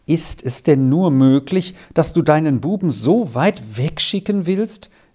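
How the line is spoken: Woman wailing. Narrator (German): rief die Frau jammernd aus

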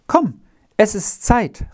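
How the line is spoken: Calling out. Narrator (German): rief er

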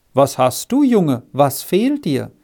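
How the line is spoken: Friendly voice asking. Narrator (German): fragte sie mit freundlicher Stimme

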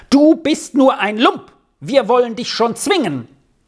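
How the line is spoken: Shouted. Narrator (German): schrie

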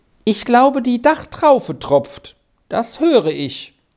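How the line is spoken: Calling out. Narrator (German): rief er dann

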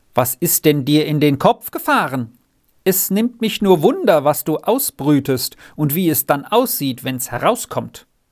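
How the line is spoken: Calling loudly repeatedly. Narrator (German): Jetzt rief die Bäuerin ein paar Mal laut dem Renz zu

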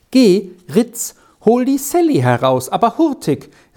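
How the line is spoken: Called up from below. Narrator (German): rief ihm Käteli von unten herauf zu

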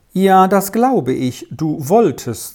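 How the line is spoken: Plain, woman. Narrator (German): sagte die Dame

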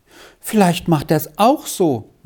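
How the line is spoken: Pitiful sigh. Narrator (German): meinte sie mit einem kläglichen Seufzer

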